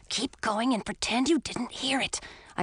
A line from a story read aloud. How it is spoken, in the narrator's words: I whispered to Edric